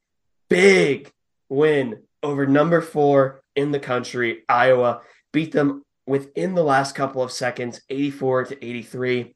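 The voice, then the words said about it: Hoarse, strained voice. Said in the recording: “my voice is just a little bit shot”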